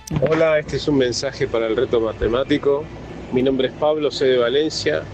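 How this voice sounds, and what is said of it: Argentine or Uruguayan Spanish accent. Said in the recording (Spanish): “con acento argentino. ... uruguayo”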